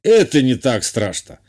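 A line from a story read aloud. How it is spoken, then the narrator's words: Amused snort. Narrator (Russian): хмыкнул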